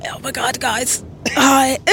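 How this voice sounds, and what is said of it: Hoarse, almost lost voice. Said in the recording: “with like no voice ... what you would sound like on a Sunday ... That is the best impression”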